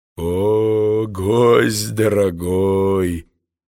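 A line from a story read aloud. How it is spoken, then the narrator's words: Deep voice. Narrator (Russian): своим глубоким голосом ответил спутник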